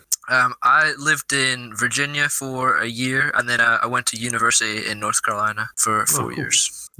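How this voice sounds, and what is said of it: Slight American twang. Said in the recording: “he's kind of got an American twang there. It's a little bit unusual.”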